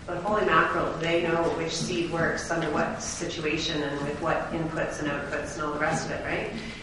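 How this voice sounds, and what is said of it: Small town valley accent. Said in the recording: “I get my small town valley accent when I talk about farmers”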